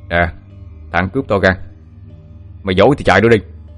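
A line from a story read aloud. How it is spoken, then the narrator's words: Intimidating shout. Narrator (Vietnamese): Quý ra oai phủ đầu, miệng quát lên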